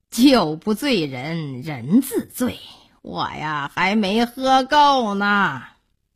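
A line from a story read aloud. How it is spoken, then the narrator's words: Laughing. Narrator (Chinese): 高成笑着说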